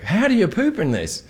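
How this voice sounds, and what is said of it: Poor attempt at Australian accent. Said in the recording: “is that your Australian accent? ... I suck at Australian.”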